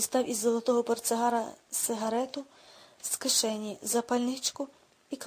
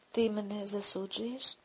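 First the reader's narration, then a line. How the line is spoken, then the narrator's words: Hoarse, stern question. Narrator (Ukrainian): спитав Бойлен хрипким, суворим тоном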